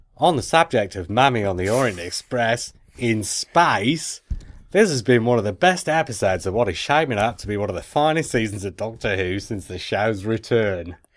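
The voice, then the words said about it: Poor put-on accent. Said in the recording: “It's the worst accent ever.”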